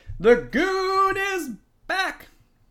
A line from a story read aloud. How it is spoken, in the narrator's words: He shouted